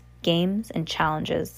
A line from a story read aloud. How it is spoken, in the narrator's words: the cat said